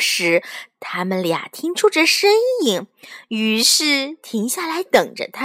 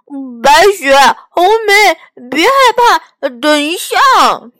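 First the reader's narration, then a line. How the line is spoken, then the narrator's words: Bear calling out. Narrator (Chinese): 熊儿喊道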